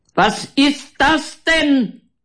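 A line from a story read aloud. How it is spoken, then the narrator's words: Very loud shouting. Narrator (German): schreit er überlaut, obwohl Elena ihm direkt gegenübersteht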